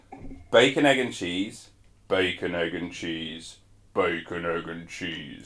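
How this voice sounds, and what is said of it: Exaggerated very low-pitched voice. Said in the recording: “have a low voice ... adding an extra accent ... The lowest one. You went bacon, like what up, mate?”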